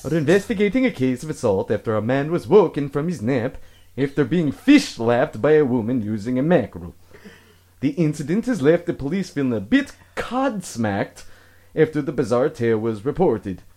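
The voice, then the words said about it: Put-on accent reading news. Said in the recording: “should I read in an accent? ... Yes. ... I'm not doing that anymore.”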